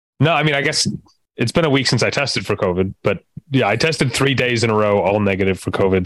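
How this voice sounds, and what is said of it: Sick, under-the-weather voice. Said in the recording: “as you might be able to tell from my voice, I am also still under the weather, second week in a row”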